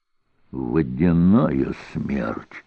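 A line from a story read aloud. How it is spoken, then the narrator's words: Muttered. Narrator (Russian): пробормотал Певер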